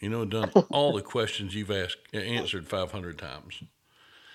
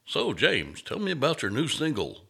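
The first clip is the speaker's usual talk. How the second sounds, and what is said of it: Put-on radio host voice. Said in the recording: “radio voice”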